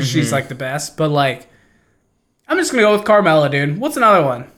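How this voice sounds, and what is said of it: Usual voice. Nothing is said of it.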